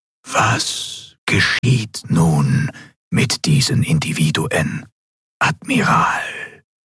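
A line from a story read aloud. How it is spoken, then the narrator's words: Ghostly telepathic whisper. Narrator (German): die gespenstische Stimme des Gouverneurs wieder direkt in ihrem Verstand flüsterte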